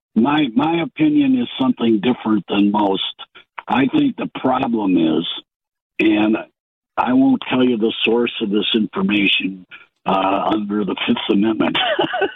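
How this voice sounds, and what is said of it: Sick, rough-sounding voice. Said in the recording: “Pardon my voice. I'm suffering from the plague.”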